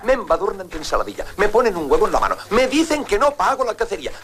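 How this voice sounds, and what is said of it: Parodied Catalan accent in Spanish. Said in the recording (Catalan): “quin accent aquest... més català... l'accent... Català, no? Que feien paròdia també dels catalans”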